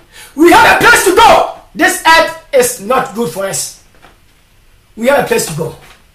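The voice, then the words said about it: Shouting loudly. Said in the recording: “That's why I'm shouting.”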